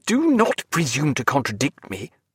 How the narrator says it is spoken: said Stephen sharply

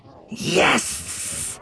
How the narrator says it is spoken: hissed Bosk gleefully

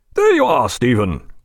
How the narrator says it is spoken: cried Jack, a more natural smile doing away with the severity of his expression

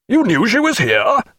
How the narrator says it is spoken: cried Jack

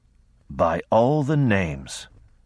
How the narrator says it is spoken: Emmon said in an awed voice

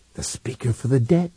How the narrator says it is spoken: he murmured

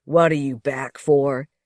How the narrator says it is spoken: growled

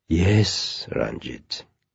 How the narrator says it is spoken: said gently

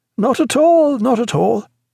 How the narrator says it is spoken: cried Martin

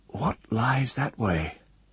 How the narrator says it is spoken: Aaron murmured to Ged, for he craved the sound of speech

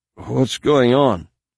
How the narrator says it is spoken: she asked anxiously

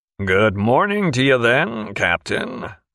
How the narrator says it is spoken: said Slocum in a harsh nasal drawl

